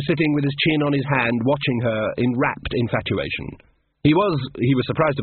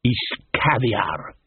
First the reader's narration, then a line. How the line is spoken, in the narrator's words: murmured Casanunda